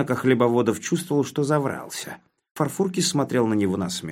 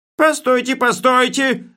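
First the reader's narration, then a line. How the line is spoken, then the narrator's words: Yelling. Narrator (Russian): заорал он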